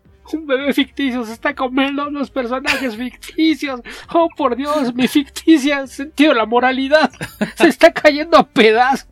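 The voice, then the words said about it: Imitates a cartoon cat character's voice. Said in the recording (Spanish): “eso fue otra imitación de ... de Cucho ... inconscientemente imita a Cucho porque hace un acento chucateco de repente”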